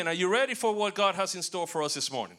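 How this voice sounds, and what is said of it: Slight Hispanic accent. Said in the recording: “I do have a little bit of an accent. ... Ricky Ricardo would be very, very proud of me.”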